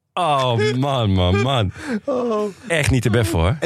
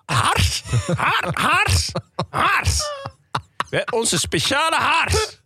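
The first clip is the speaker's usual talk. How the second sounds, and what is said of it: Imitated strange accent, wobbling R. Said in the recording (Dutch): “Haar accent is heel wonderlijk ... Maar ze heeft een heel vreemd, niet thuis te brengen accent. Met een R die alle kanten op zwabbert. ... Hoe zij het woord hars uitspreekt.”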